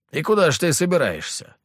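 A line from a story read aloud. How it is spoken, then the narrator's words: Skeptical snort. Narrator (Russian): хмыкнул Петр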